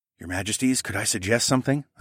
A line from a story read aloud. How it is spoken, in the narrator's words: I whispered